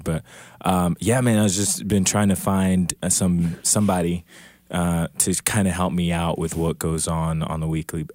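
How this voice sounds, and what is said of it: Slightly throaty, hoarse voice. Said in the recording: “I'm a little bit throaty here, so that's why I sound a little bit weird.”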